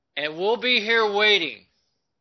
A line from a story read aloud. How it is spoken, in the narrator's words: the guards shouted back